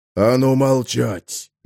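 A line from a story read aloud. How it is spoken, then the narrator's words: Hoarse rasp. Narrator (Russian): захрипел Биск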